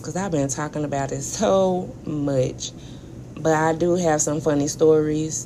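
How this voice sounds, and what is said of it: Hoarse, strained voice. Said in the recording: “That's probably why I lost my voice.”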